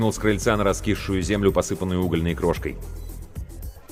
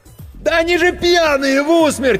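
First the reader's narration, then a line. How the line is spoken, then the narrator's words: Frantic yelling. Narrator (Russian): истошно заорал Серега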